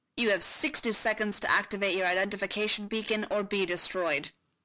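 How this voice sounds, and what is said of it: Barked orders in Naboo accent. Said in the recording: “someone barked in his ear. Ani recognized the Naboo accent immediately.”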